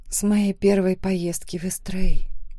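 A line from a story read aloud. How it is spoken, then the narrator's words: Quiet whispered reply. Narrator (Russian): тихо прошептала я в ответ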